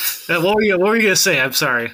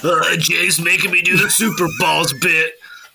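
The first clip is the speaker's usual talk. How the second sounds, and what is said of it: Imitates another person's voice, complaining. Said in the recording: “your Madrox impression sound like other people's Jay impression ... impression of Madrox complaining about Jay”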